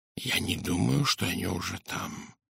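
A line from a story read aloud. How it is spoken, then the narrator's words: Whisper. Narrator (Russian): прошептал Пуаро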